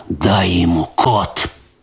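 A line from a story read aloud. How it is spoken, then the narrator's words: Hoarse rasp. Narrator (Russian): прохрипел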